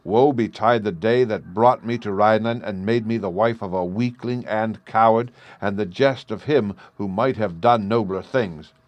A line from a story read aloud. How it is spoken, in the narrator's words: she cried